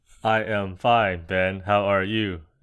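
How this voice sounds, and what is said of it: Robotic voice. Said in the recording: “Why do you sound like a robot?”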